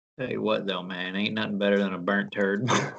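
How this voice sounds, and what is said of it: Put-on Southern accent. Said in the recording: “talking about cooking turds in a southern accent”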